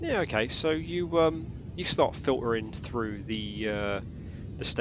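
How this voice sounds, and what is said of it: Usual voice. Nothing is said of it.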